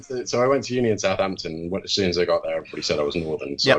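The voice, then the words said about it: Slight English Midlands accent. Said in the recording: “I'm originally from Leicester, so I've got a slight twang in my accent ... the Midlands”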